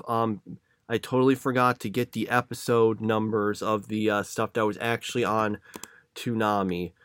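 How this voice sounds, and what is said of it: Congested voice from a cold. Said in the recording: “my voice sounds a little different than normal ... I'm kind of have a little bit of a cold or some kind of allergy or something ... sorry if I sound different ... sorry if you maybe hear me sniff”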